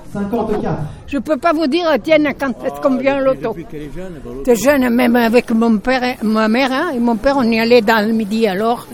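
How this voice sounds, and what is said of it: Slight regional French accent. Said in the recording (French): “ce petit accent”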